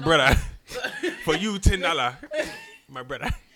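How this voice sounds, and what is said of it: Put-on Nigerian accent. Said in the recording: “one day they hit you with the Nigerian accent”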